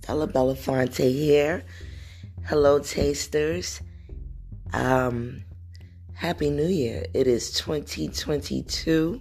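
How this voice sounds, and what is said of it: Sick, unwell-sounding voice. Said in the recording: “I don't know if you can hear it in my voice, but I am not doing well.”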